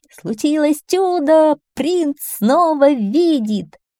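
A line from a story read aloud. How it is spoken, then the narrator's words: Joyful shout at full voice. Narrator (Russian): лакея, который радостно вопил изо всех сил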